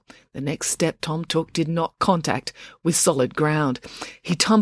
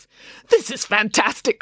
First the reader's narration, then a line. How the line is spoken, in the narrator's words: cried April